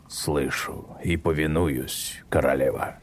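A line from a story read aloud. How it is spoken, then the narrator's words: Wolf's growl. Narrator (Russian): прорычал волк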